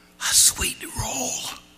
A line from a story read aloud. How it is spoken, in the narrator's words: whispered